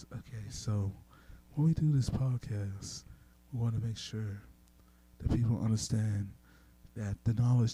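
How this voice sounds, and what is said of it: Calm, soothing public-radio style voice. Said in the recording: “talk in my NPR voice ... Oh, so this is like melatonin? Is this to help people get to sleep”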